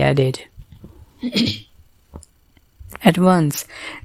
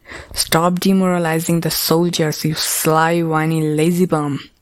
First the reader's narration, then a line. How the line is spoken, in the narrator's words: Sir Ryle growled at Kai